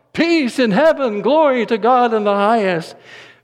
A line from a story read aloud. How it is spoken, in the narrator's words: They were thrilled to shout